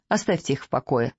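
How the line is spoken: Dry, young man. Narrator (Russian): сухо сказал молодой человек

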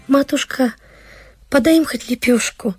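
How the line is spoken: Timid girl speaking. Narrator (Russian): сказала старшая дочь, Параша, робко взглядывая на мать

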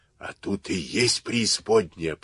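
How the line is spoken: Hoarse rasp. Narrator (Russian): прохрипел голос

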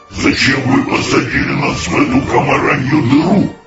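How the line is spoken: Growling. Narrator (Russian): рычали они на БДВ

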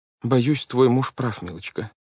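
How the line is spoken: Sad. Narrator (Russian): печально сказала судья Штраус

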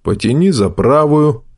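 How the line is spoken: Calm speech. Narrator (Russian): Васютка спокойно говорит

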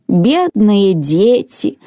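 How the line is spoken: Sighing grandmother. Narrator (Russian): вздохнула бабушка

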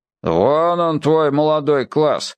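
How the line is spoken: Grumbling. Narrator (Russian): проворчал бородатый слесарь Василий Ефимович

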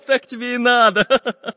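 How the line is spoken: Laughing. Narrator (Russian): Засмеялся Карандаш

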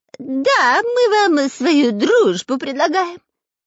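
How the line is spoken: Nasal. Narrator (Russian): прогнусавил Дырка

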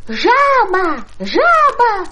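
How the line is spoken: Silly-sounding shout. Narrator (Russian): закричал он очень глупым голосом

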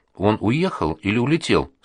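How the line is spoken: Plain. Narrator (Russian): спросил Володька

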